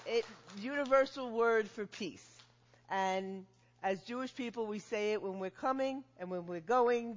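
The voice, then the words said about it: New York area accent. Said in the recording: “she is not from around here... She is from New Jersey, New York area... you said it was a Jersey accent”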